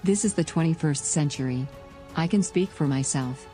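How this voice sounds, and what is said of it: Female robot voice. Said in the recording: “the female robot voice”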